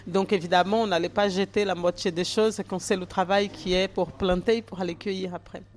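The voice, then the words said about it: Slight foreign accent. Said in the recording (French): “J'ai un petit accent”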